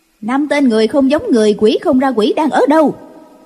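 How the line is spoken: Loud yelling voice. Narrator (Vietnamese): có tiếng người oan oan la lên

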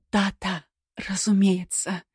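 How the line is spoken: Theatrical whisper. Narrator (Russian): театрально прошептала Элеонора

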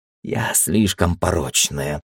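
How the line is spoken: Sad mutter. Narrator (Russian): грустно пробормотала Кари

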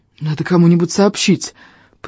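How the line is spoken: Breathless wheeze. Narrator (Russian): просипел я, отдышавшись

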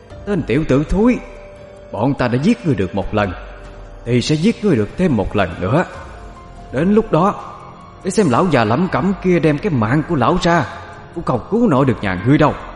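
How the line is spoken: Harsh, stern voice. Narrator (Vietnamese): Cậu Khanh gằn giọng

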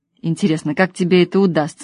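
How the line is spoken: Mocking snort. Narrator (Russian): хмыкнул Юрка

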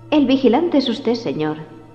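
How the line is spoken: Soft articulation. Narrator (Spanish): articuló suavemente Grady

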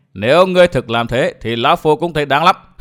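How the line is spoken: Loud laughter. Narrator (Vietnamese): Tà Kiếm cười lớn

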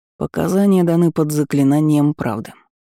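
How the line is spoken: Unruffled reminder. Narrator (Russian): невозмутимым голосом напомнил следователь

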